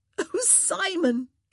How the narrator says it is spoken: she gasped

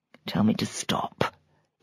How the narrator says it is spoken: he whispered, his breath thick in his throat

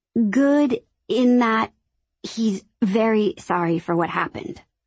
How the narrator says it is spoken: I stammered

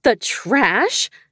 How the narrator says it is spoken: I gasped

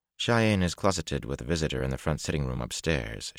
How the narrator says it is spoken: said calmly

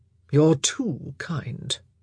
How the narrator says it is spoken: Anthony murmured

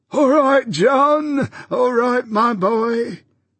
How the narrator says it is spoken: piped the old man from within

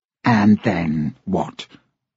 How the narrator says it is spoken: the green-eyed man sneered

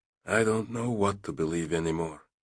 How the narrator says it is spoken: Yakov whispered

